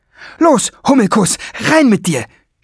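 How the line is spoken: Shouted. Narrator (German): schrie

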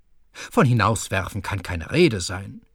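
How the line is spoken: Plain. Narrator (German): sagte Herr Kühne

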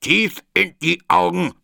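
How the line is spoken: Gruff, king. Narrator (German): sagte der König barsch

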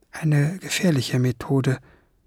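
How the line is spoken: Murmuring. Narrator (German): murmelte

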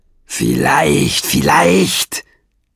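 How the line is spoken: Growled. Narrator (German): knurrte Nesselbrand

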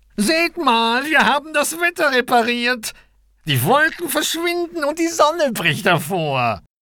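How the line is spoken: Called out. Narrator (German): rief Koks

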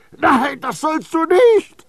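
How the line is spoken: Horrified scream. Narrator (German): schrie Baldini entsetzt

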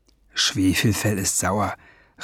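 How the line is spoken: Murmured. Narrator (German): raunte Ben dem Drachen ins Ohr

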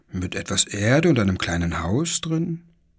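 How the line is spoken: Father's murmur. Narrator (German): murmelte Papa

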